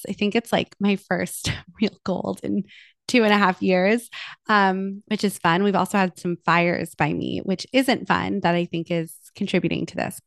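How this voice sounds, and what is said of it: Voice sounds congested from a cold. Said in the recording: “I have a little bit of a cold, as you might be able to hear from my voice.”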